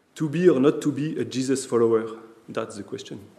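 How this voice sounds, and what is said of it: French-accented English. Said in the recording (French): “Excusez mon accent.”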